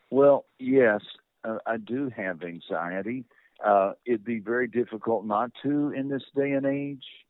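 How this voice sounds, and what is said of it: Subtle rolling accent, peaceful tone. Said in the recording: “beautiful kind of rolling, subtle accent ... sounds like you're full of peace”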